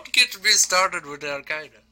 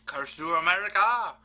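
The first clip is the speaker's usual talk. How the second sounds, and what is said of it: Put-on Indian-sounding accent. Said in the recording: “I don't know what kind of accent I just did. ... I'm pretty sure you just did an Al Qaeda accent. ... I know it's an Indian Bill Cosby. ... It does sound like Indian Bill Cosby.”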